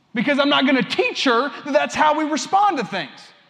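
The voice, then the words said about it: Loud yelling preaching voice. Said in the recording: “I'm yelling up here because I'm preaching”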